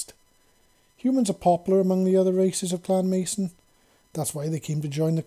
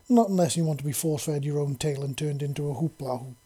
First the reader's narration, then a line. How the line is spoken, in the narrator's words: Smoke said with a soft chuckle